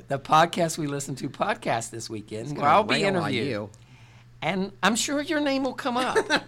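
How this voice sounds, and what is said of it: Appalachian Southern US accent. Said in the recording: “you got your accent ... you got the accent ... that charming Southern accent ... It's Appalachian”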